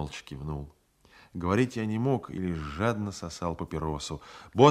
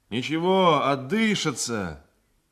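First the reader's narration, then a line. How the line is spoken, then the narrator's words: Sailor shouting. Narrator (Russian): крикнул мне матрос Поликанов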